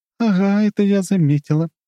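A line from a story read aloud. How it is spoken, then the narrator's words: Chuckling. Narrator (Russian): хохотнула она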